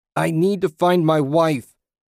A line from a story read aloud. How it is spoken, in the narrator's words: he screamed at the disembodied voice